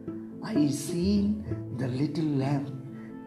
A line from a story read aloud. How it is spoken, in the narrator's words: she said softly